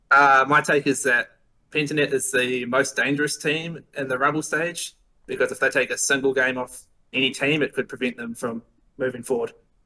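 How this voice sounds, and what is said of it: New Zealand accent. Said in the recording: “It's a recognizable accent.”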